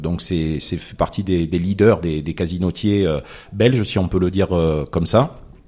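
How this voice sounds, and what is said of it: Marseille French accent. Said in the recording (French): “originaire de Marseille. Bon, je pense que mon accent le trahit. ... plus marseillais”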